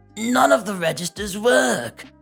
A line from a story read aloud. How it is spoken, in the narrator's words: The husband starts yelling again